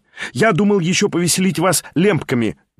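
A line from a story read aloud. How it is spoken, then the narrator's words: Cheerful exclamation. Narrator (Russian): весело вскричал он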